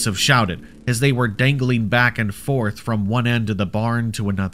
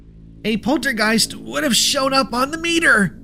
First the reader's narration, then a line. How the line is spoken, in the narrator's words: Luna shouted back, struggling to be heard over the cacophony of the invisible creature's trilling